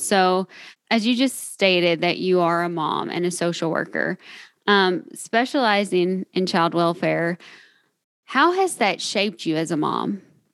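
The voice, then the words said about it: Southern US Kentucky accent. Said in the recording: “I'm sure you can tell that I'm from Kentucky. ... My Southern accent.”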